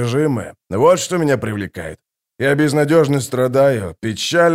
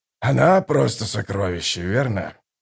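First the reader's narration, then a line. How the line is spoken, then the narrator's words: Sighing mutter. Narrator (Russian): Со вздохом пробормотал Драсти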